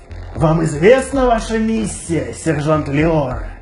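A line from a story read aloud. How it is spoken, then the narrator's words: Insinuating question. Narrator (Russian): вкрадчиво спрашивает Ваштер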